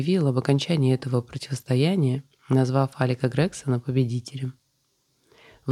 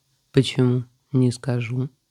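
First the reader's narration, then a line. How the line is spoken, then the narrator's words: Calm objection. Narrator (Russian): спокойно возразил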